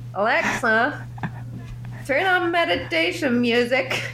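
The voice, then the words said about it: Poor imitation of another person's accent. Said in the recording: “let me do your accent ... you made a terrible copy of my accent ... That is not my accent”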